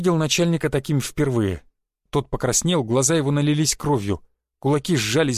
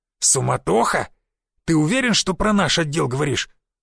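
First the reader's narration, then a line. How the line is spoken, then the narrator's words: Through clenched teeth. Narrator (Russian): процедил начальник тайной полиции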